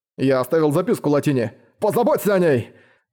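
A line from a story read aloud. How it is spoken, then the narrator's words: Shouting, voice breaking. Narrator (Russian): Срывающимся голосом прокричал Дейл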